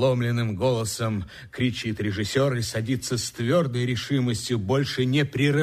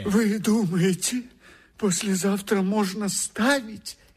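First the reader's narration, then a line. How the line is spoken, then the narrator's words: Frightened question. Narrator (Russian): испуганно спрашивает автор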